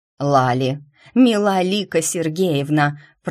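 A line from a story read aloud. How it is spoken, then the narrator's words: Growl. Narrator (Russian): прорычала я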